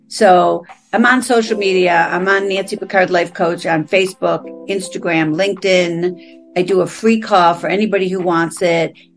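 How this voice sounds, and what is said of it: East Coast American accent. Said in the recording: “Sounds like you have an East Coast accent.”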